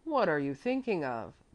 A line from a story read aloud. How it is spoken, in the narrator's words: said irritably